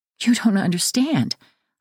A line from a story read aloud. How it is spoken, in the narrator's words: I falter